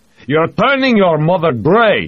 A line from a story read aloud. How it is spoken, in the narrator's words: his father shouted